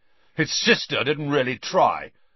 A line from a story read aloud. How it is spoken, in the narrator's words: said McLagan menacingly